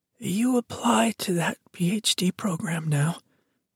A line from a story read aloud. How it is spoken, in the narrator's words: said, her words coming out with a wheeze